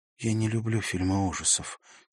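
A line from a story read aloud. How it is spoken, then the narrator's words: Quiet. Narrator (Russian): тихо сказала она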